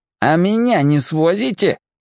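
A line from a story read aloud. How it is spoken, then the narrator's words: Nasty-voiced question. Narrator (Russian): противным голосом осведомился Гоша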